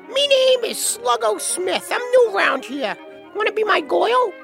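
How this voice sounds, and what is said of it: Rough kid with Bronx accent. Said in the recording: “a rough-looking bald kid with a Bronx accent”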